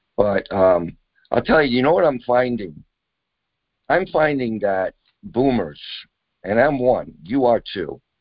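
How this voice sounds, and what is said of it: Hoarse, nearly lost voice. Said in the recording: “that's why I've lost my voice, probably”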